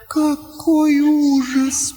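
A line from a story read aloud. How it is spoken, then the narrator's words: Moaning. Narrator (Russian): простонала Лаура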